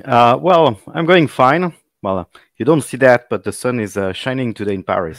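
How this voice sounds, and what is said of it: French accent. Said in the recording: “people will notice my accent. Well, I'm from Paris”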